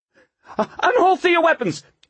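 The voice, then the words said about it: Panicky yelling. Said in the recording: “Waxy yelled in a panicky voice.”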